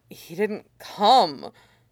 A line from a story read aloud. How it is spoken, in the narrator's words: Dylan's too busy murmuring